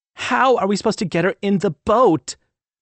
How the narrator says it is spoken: Delaney squealed

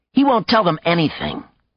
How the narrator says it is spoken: Kasey said hotly

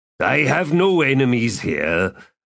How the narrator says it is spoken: Cutter said in a belligerent growl

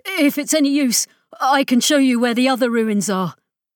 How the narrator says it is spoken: Desperately burst out

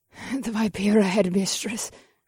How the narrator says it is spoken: Theodora gasped

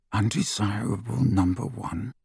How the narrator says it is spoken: Harry muttered under his breath

